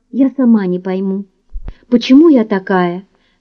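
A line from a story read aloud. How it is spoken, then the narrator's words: Guilty mumble. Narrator (Russian): пробормотала виновата Мэри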